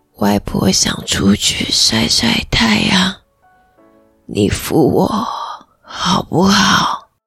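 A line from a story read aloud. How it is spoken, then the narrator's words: Hoarse. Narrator (Chinese): 她用沙哑的声音说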